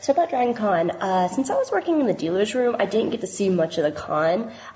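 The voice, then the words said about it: Sick-sounding voice. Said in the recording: “You might can hear it in my voice. I got the con crud. ... I've been sick all last week.”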